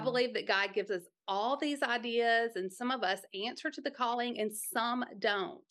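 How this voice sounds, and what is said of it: Southern accent. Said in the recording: “the Southern accent”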